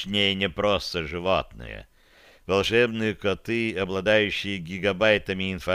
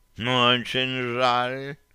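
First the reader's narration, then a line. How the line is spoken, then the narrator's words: Purring cat. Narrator (Russian): промурлыкал кот да Винчи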